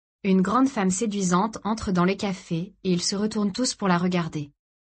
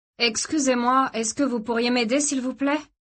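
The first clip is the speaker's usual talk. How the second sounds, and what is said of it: Loud voice, strong Eastern European accent. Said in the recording (French): “d'une voix forte avec un accent d'Europe de l'Est prononcé”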